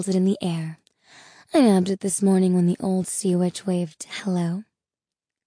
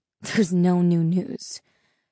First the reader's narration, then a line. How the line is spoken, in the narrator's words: she scoffed